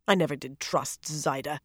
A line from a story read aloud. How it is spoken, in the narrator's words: she grumbled